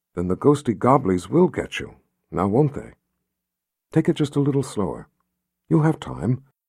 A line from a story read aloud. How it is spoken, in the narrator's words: the woman said in a soft, gentle voice